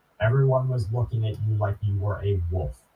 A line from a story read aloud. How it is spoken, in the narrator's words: says